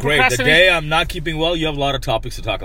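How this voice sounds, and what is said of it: Husky, sick-sounding voice. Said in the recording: “My voice is kind of husky right now ... He's a husky dog right here. ... What do you got? Bronchitis? ... You're sick.”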